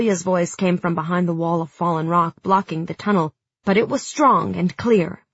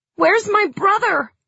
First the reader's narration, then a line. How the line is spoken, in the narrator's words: yelled Nadia